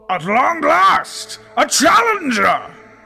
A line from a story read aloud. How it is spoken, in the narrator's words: roared the batsman